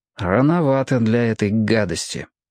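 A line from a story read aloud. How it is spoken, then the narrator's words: Gloomy remark. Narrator (Russian): мрачно заметил Роб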